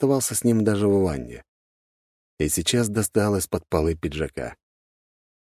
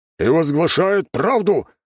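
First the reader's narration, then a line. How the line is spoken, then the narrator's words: Barked. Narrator (Russian): рявкнул Владислав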